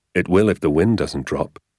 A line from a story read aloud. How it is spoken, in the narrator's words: he said